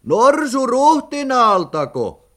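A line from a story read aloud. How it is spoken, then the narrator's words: Shouted question. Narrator (Finnish): huusin minä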